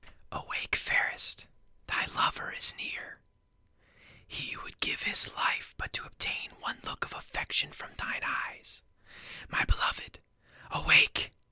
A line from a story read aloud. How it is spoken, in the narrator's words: whispered